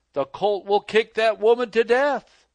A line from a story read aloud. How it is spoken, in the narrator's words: Elder Bates called out to Elder White